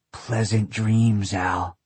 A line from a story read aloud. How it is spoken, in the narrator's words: he grunted in my ear